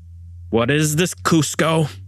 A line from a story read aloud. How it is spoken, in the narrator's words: The Inca yelled out in hard pain